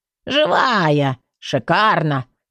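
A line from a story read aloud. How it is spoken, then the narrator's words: Flat matter-of-fact statement. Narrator (Russian): констатировала фигура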